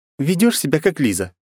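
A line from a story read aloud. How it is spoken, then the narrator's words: Snorted, girl. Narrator (Russian): фыркнула девушка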